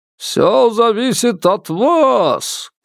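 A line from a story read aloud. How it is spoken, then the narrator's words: Shout. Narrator (Russian): крикнул распорядитель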